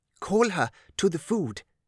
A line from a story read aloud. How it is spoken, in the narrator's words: she knelt beside Lillian and whispered